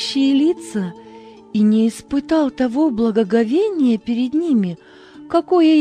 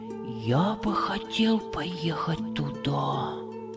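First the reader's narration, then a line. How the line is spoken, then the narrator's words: Whisper. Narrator (Russian): прошептал Хамид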